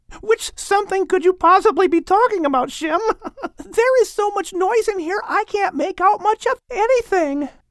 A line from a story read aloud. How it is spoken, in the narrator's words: said Maybeer, still giggling at how the gorilla showed up Ham with the bamboo